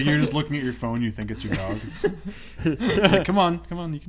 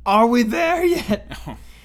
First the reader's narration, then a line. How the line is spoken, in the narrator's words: constantly shout